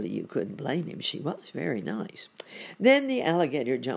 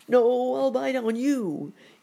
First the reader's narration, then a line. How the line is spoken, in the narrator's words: he cried